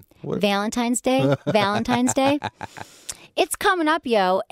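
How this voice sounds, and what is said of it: Michigan accent. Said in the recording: “this is when Michigan accent God. Comes out.”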